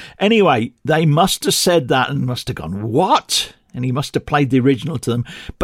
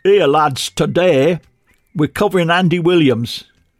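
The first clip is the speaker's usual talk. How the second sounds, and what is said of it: Put-on accent of unclear origin. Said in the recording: “I don't know where in the world he came from with that accent.”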